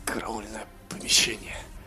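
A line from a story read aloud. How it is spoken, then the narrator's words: Muttered. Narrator (Russian): пробормотал наш герой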